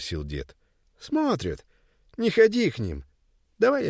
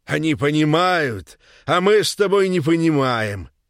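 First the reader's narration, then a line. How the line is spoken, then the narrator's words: Loud. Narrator (Russian): громко заговорил он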